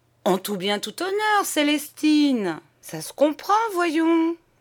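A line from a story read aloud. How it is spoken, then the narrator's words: Stammering. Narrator (French): il balbutia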